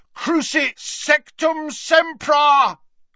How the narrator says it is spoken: bellowed Harry from the floor

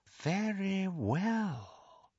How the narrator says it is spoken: said Voldemort, and Harry heard more danger in the silkiness of his voice

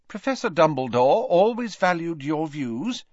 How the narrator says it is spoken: said Professor McGonagall kindly

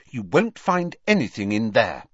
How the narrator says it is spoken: said Hermione firmly

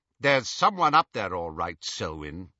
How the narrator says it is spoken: said the second man sharply

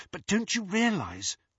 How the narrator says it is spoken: whispered Hermione

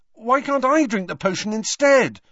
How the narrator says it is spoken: asked Harry desperately

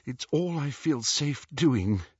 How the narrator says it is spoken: said Hermione shakily

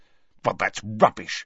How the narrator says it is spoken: snapped Harry

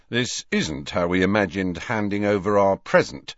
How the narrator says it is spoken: said George grimly

